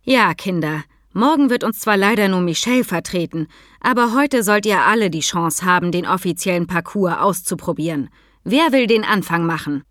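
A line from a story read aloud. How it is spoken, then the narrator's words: Plain question. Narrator (German): fragte Frau Kaltenbach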